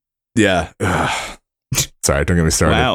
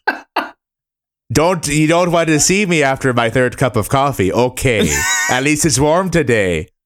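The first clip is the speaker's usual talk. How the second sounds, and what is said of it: Vaguely Irish, Midwestern small-talk voice. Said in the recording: “my impression of bullshit small talk ... It was like vaguely Irish, but also kind of Midwestern.”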